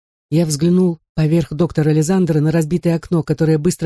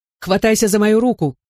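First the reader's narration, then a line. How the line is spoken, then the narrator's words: Shouted. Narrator (Russian): крикнул отец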